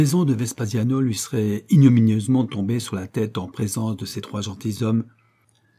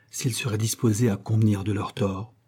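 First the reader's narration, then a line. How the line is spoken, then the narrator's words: Low voice. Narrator (French): ajouta-t-il à voix basse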